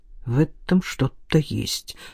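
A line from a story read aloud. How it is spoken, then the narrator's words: Muttered. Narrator (Russian): пробормотал капитан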